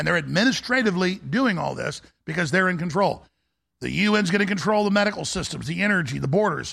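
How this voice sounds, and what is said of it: Usual voice. Nothing is said of it.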